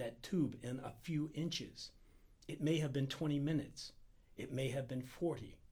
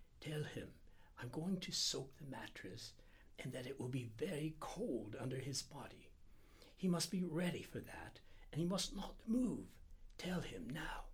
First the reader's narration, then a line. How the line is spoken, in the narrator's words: he whispered